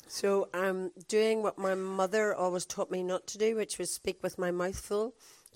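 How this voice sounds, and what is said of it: Belfast accent, croaky voice. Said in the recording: “from Belfast. You probably get that from the accent, but it's not usually as croaky as this”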